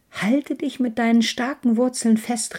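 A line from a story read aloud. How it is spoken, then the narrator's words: Calling across. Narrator (German): rief die Birke zu ihr herüber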